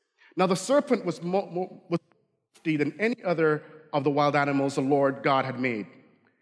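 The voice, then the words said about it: Barbadian accent. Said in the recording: “when I get excited. My Barbadian accent comes out. No, it is not Wisconsin. It is Barbadian. So if it sounds kind of off”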